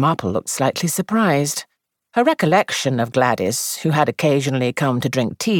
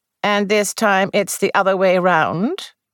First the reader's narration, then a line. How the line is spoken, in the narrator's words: asked Miss Marple dryly